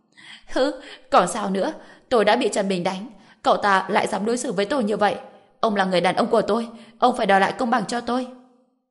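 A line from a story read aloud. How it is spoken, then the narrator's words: Loud wailing accusation. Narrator (Vietnamese): Dương Quế Lan lập tức gào khóc om sòm tố cáo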